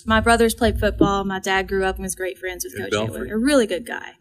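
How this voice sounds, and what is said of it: Eastern Kentucky accent. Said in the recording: “If you can't tell from my accent, Eastern Kentucky.”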